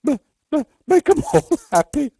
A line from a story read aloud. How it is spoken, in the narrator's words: sobbed McTurk